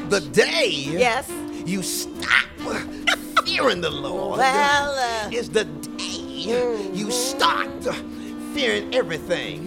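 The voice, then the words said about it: Black Baptist preacher voice. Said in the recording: “in like the Black Baptist preacher voice”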